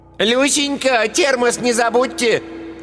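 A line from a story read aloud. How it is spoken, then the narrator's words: Receding shout. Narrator (Russian): крикнула удаляющаяся вслед за мужем Ираида Павловна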